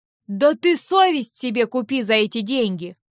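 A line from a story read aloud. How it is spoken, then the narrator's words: Exclamation. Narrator (Russian): воскликнул в ответ Винс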